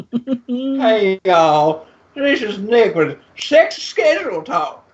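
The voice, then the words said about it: Put-on Southern accent. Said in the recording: “I could do it with my southern accent.”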